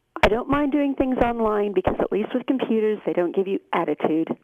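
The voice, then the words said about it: American-sounding accent. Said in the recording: “Where are you phoning me from? You, NASA? ... Are you listening to me live in Denver? ... That accent's changed a lot in Chorley since I went last down there.”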